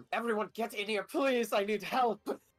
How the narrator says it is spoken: Adrian is going to shout into the other room

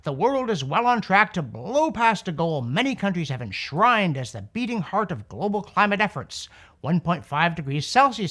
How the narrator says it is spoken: scientific alarmism howled

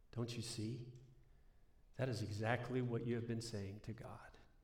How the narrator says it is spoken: he said in a low voice

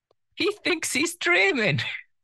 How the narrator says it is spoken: Someone shouted, their voice on repeat in his head

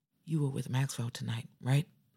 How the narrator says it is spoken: His voice was calm, but there was something beneath it, something raw and vulnerable, like he was bracing himself for the answer

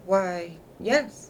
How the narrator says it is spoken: said Caleb, looking up gravely

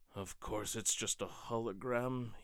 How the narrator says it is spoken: he muttered to himself

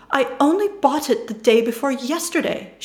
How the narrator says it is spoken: exclaims

